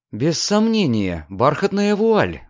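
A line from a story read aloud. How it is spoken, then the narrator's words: Exclaiming. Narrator (Russian): воскликнула Диана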